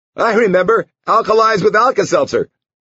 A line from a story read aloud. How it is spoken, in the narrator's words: Hooty-hooty-hoo, the warm voice chuckled